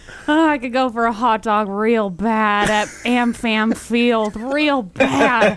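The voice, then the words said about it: Imitates another person's voice. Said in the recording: “the actress that you can impersonate ... Jennifer Coolidge”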